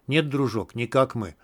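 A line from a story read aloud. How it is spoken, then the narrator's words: Soft. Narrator (Russian): мягко сказал Мякиш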